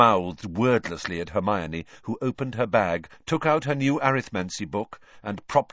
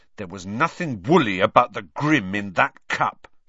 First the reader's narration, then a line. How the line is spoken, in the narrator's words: said Ron hotly